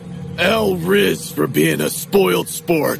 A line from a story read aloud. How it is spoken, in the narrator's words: He growled